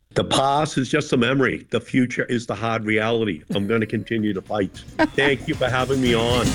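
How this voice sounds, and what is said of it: Boston-area Malden accent. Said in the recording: “glorious Malden accent”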